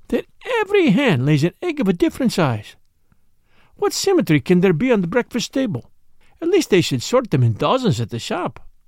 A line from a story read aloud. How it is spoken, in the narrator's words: murmured